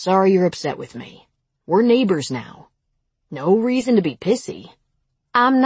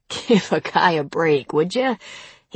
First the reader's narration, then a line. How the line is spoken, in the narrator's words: he said, laughing